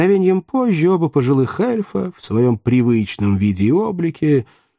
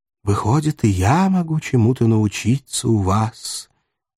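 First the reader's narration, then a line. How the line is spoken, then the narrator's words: Quiet voice. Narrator (Russian): тихо великий писатель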